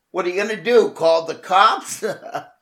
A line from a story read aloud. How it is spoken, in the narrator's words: They laughed